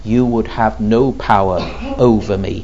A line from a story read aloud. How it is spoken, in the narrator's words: he says